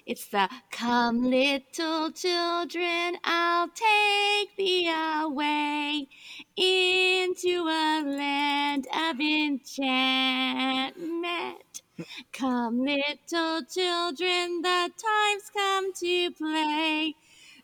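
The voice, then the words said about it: Singing in a witch voice. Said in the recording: “my witch voice”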